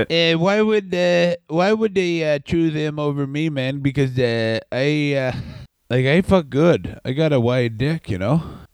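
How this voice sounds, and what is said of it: Imitation sounding like Canadian man. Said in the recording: “my Triple H impression has become just a Canadian man”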